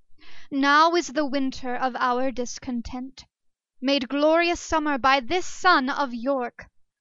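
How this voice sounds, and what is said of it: Theatrical Shakespearean recitation voice. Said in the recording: “in my best Shakespearean voice”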